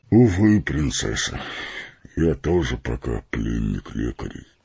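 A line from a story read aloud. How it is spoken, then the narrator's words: Sad, smiling. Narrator (Russian): грустно улыбнулся Фарамир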